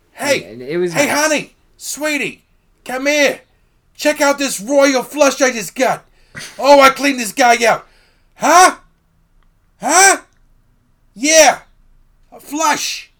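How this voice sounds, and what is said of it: Put-on New Jersey or Long Island accent. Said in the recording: “they're from Jersey ... Long Island, ... or whatever the fuck accent I was doing ... Pretty accurate representation, actually.”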